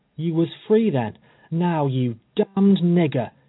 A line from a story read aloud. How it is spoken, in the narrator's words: he exclaimed